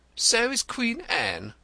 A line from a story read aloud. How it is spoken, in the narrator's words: cried the irritated poet